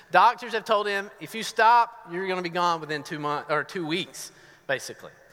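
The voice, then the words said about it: Southern US accent. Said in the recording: “my accent ... I'm from Northeast Georgia. So you may hear some southern verbiage in here.”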